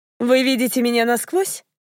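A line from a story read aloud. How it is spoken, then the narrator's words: Cheerful question. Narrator (Russian): весело спросила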